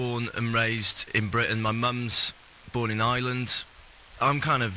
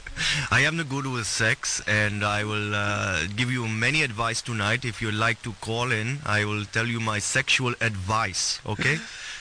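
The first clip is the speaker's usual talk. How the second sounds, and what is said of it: Put-on Indian accent. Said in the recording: “You do it with an Indian accent then? ... Oh, yes. Of course.”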